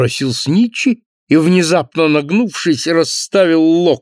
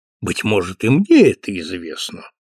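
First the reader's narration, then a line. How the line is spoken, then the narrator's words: Calm objection. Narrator (Russian): спокойно возразил клиент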